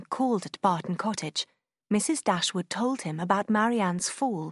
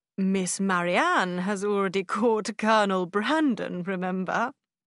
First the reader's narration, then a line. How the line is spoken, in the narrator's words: he added with a laugh